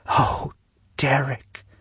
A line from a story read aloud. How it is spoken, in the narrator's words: she whispered